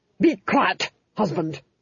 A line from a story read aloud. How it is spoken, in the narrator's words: snapped the Duchess